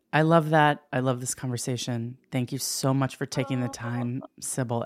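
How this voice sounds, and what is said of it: Low, smoky bedroom voice. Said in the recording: “There goes that voice again. ... it's a bedroom voice, ... It's like all low and smoky”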